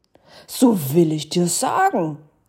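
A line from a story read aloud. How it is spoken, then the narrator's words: Ghost calling. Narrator (German): rief der Geist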